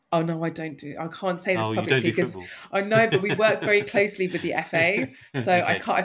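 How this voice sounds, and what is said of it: North London accent. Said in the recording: “I'm a North Londoner through and through. Most people can tell that from my accent.”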